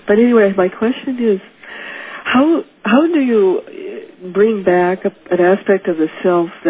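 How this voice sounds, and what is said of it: Hoarse, congested voice. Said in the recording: “I have laryngitis. I have a bad cold.”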